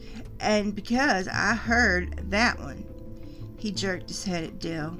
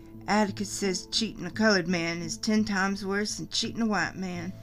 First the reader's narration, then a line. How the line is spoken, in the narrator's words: I muttered